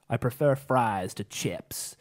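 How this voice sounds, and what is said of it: Poor put-on American accent. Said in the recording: “my really good American accent ... That was shocking.”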